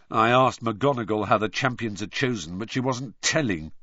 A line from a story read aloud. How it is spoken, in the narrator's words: said George bitterly